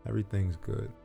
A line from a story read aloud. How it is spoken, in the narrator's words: Niall mumbled under his breath